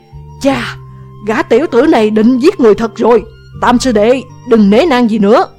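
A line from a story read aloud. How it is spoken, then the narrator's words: Shouted. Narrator (Vietnamese): Chu Kỳ la lên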